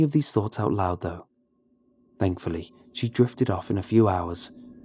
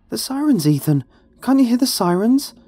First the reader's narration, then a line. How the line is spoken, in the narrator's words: gasped, barely able to get the words out